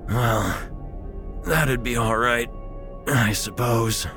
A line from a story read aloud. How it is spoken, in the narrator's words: he wheezed